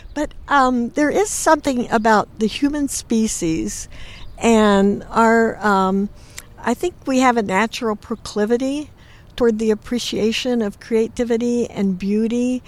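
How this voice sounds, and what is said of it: Teary voice with catch in throat. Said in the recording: “I feel actually a little teary ... Get a little catch in my throat here.”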